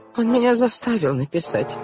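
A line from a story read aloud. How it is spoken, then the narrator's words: Whimpering. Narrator (Russian): прохныкала тетя Жозефина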